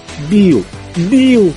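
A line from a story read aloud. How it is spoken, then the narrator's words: Pleading. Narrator (Russian): взмолился Келли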